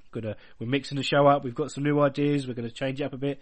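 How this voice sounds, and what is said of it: Congested, blocked-nose voice. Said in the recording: “I've got a bit of a cough and a bit of a bunged up nose”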